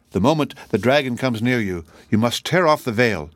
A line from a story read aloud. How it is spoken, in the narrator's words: cried he